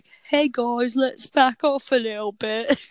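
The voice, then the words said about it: Put-on English accent. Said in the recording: “I love my English accent so good.”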